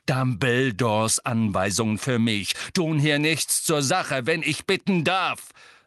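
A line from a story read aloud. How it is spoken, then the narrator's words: Loud. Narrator (German): sagte Sirius laut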